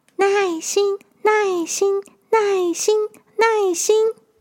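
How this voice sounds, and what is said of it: Speaking in a soft, quiet voice. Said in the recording (Chinese): “小小声的说着”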